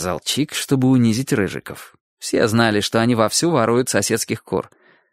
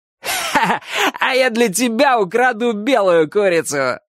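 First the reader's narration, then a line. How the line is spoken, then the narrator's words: Laughing. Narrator (Russian): сказал один из них, смеясь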